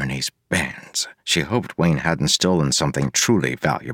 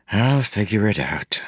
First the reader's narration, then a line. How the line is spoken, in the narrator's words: said with a sigh